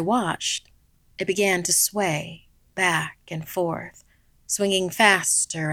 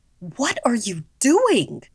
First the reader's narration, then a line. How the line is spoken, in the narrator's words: my mother yelled at me